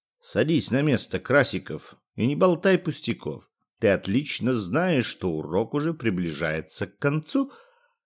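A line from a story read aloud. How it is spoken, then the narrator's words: Good-natured teacher. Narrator (Russian): ответил физик вполне благодушным тоном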